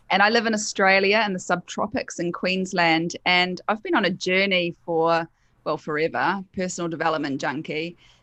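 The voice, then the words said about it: New Zealand accent. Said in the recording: “I'm a Kiwi, so that's my accent in case anyone's wondering. I'm not from the UK”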